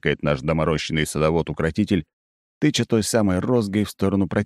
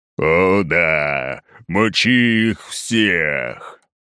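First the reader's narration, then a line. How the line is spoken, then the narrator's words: Deep impatient roar. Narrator (Russian): басом взрёвывает шухерова корма, нетерпеливо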